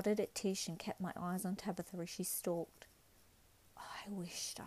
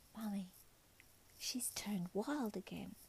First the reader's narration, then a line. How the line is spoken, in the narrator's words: Tish whispered to me